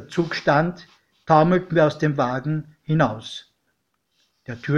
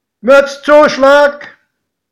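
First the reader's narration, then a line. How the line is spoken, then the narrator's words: Conductor calling out. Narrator (German): rief der Schaffner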